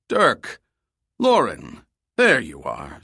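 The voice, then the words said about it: Booming, hearty male character voice. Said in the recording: “boomed in a hearty voice.”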